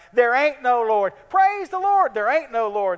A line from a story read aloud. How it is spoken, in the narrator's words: Next door to her lived an atheist who would get so angry at her proclamations, he would shout